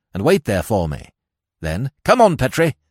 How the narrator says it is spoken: he snapped

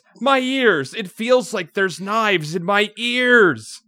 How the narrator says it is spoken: someone screams

